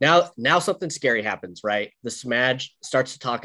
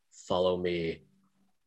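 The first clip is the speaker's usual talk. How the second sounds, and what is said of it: Low muttering confidential voice. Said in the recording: “talk in a low and like confidential voice, almost like a mutter ... That's a pretty good impersonation there”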